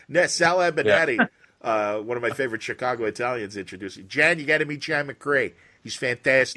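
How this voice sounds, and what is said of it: Slight Chicago accent. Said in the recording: “you really do a good job of scrubbing your Chicago out, but it comes through there”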